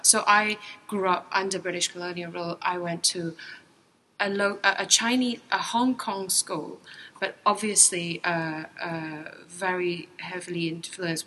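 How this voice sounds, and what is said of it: British-influenced Hong Kong accent. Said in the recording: “We took the model of the British education system, hence my accent.”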